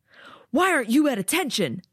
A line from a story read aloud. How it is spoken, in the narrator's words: Corporal Mitt screams